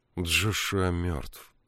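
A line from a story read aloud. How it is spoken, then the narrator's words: Gloomy. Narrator (Russian): мрачно сказала Мегвин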